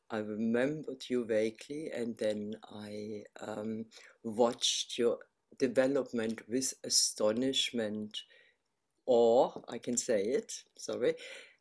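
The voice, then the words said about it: German accent in English. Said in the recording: “you have that very, very beautiful accent. ... you're from Berlin originally ... the accent remains.”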